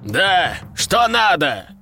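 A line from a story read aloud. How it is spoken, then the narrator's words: Shouted over the phone. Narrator (Russian): прокричал кто-то на том конце провода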